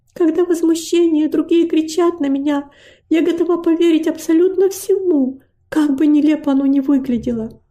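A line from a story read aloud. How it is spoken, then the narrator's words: Girl's sighing reply. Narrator (Russian): Девочка вздохнув, ответила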